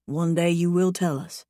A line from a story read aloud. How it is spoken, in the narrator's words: he whispers